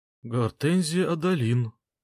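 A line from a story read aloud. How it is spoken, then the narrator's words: Trembling voice. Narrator (Russian): дрожащим голосом начал Вонг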